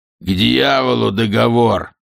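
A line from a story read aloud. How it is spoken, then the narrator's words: Snarling. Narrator (Russian): зарычал капитан Истерлинг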